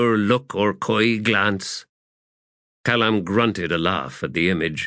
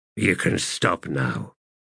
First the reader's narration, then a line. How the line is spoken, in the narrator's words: the wizard muttered